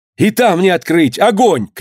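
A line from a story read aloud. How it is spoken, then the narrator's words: Shouted while running in. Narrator (Russian): крикнул, вбегая, ключник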